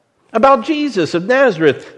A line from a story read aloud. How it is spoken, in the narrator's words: they replied